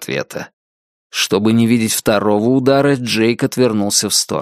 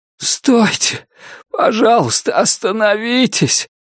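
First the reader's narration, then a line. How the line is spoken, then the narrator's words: Pleading. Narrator (Russian): умоляющим голосом произнес человек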